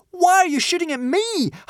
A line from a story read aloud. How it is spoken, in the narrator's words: howled a sprinting Hiccup